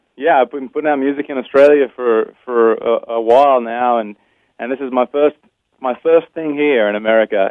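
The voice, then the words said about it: Noticeable foreign accent. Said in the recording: “your accent gives you away. You have done this in two different countries.”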